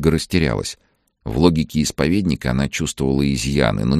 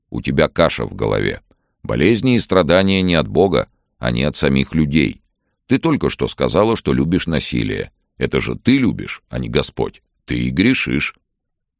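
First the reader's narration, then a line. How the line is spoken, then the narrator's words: Stern. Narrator (Russian): строго сказал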